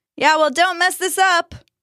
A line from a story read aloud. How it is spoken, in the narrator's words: Dustin yelled after him